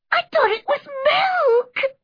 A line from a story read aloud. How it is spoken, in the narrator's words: sobbed Anne